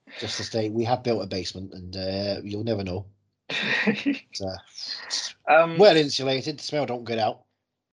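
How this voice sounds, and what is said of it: Put-on northern English accent. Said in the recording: “doing this voice, because I'm very northern”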